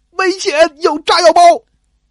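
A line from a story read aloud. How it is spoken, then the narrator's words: Shouting. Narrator (Chinese): 大喊一声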